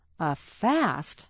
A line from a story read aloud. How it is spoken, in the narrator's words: gasped